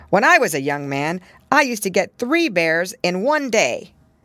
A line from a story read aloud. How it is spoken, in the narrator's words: their father hardly looked at them and only said